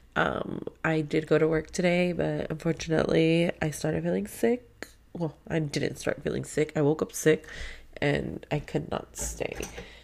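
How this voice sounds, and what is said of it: Stuffy, congested sick voice. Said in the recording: “I do feel like crap. I'm sorry if I sound so stuffy.”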